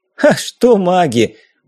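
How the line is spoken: Loud laughing. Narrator (Russian): Валяев захохотал

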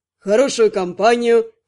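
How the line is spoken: Wry snort. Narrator (Russian): хмыкнул некромант

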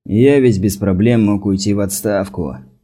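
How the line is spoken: Dry remark. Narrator (Russian): сухо заметил Рил

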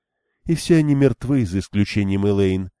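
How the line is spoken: Glum reply. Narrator (Russian): уныло откликнулась Бергитта

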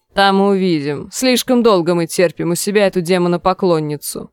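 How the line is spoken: Grumbling. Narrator (Russian): проворчал Сакс

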